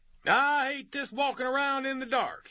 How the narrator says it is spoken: he added loudly

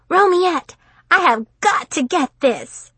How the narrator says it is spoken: cried Destiny

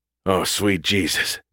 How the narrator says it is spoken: Gus panted

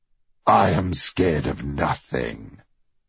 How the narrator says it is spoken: growled the wolf

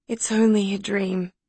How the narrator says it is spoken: said Madison sleepily

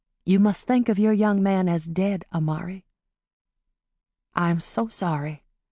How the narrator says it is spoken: Polly told her quietly

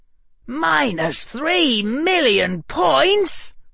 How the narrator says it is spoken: Harry said indignantly to the empty hallway

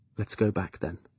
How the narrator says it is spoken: said softly into his blood-matted hair

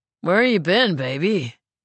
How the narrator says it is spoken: He slurs

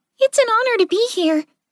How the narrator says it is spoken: Clover said excitedly

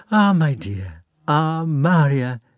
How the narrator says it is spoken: they suddenly exclaimed, and then laughed

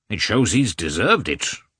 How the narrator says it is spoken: replied the hall porter, sternly and seriously

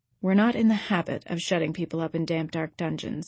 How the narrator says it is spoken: said Marilla dryly

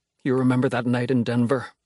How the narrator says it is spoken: says, measured, his voice quavering

